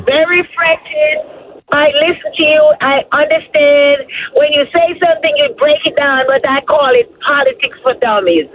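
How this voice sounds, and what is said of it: Jamaican accent. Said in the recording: “I hear an accent. ... I'm from Jamaica.”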